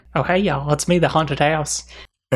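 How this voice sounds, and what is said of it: Put-on accent as haunted house. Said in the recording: “it has that accent”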